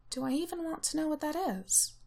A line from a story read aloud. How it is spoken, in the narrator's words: Ramsay asks Tej in an undertone